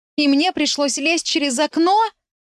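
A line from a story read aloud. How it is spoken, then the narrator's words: Exclaiming. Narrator (Russian): воскликнула я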